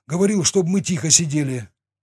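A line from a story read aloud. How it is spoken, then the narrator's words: Breathy exhale. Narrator (Russian): выдохнул тот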